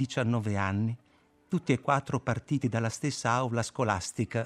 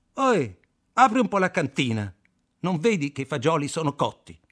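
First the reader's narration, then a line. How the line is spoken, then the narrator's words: Shouted. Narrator (Italian): Kaczynski gli gridò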